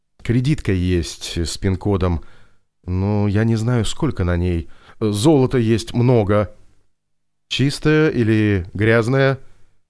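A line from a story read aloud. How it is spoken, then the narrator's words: Sighing. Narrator (Russian): Виктор вздохнул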